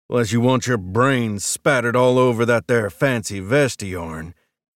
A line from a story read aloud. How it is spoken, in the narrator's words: the man growled